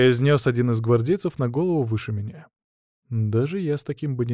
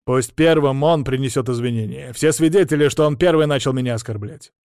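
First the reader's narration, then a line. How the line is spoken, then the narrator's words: Loud, count's son. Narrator (Russian): громко произнес графский сын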